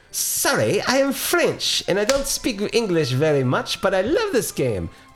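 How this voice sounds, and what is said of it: Bad mixed French-Indian-British accent. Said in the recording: “I'm going to impersonate a French person very badly ... That's Indian ... That's British ... I can't do it. This accent to save my life ... English, Indian, French ... It's a combination of three.”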